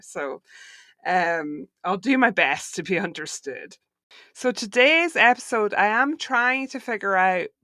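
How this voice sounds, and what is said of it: Mixed, wavering Scottish accent. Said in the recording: “how weird and wonky my accent sounds, because my parents are here staying from Scotland ... the more my accent just kind of like doesn't really know where it lives anymore”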